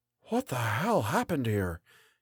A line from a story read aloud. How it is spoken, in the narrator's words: Gallagher whispered